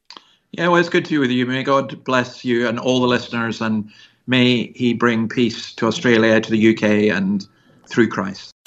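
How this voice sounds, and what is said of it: Scottish accent. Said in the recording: “You might have detected that Scottish accent.”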